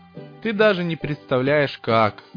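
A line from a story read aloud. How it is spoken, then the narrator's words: Sad speech. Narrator (Russian): грустно произнес я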